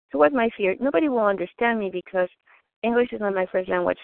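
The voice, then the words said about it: Thick non-native English accent. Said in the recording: “I have a thick accent, and English is my second language ... it sounds funny”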